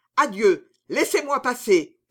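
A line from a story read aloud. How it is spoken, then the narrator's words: Happy shouting. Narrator (French): criait l'heureux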